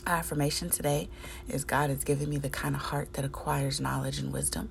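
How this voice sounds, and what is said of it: Tired-sounding voice. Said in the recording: “Hopefully you can hear the tired in my voice.”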